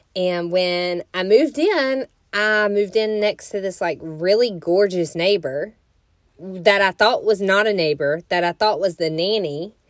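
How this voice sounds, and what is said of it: Southern US accent. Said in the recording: “I moved in to Florida from a town in Alabama, in case you couldn't tell by my accent. Born and raised in the South”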